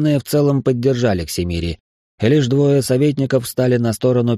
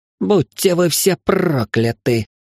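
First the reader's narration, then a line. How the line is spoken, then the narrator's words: Hiss. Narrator (Russian): прошипел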